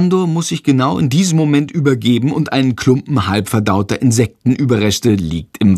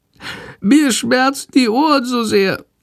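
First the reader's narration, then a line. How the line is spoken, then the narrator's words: Sick, meek whimpering. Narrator (German): jammert die kranke Fledermaus ganz kleinlaut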